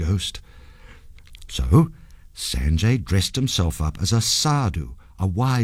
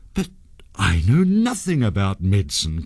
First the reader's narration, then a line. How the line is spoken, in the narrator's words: cried Sanjay